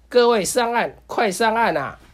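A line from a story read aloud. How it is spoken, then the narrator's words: Loud shout. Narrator (Chinese): 救生员大叫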